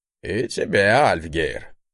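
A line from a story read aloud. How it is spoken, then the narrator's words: Snorting. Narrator (Russian): хмыкнул тот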